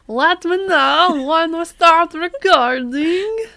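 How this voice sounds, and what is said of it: Put-on accent with Russian hint. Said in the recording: “What kind of accent is that? ... I don't know where I'm from with this accent, but it feels right. ... It's got a hint of Russian. ... maybe just like a weird Russian person?”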